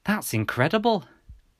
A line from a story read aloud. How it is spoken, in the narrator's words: gasped Mum